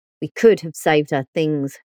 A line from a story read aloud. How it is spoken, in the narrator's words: growled Tony, as though it was my decision to leave them all behind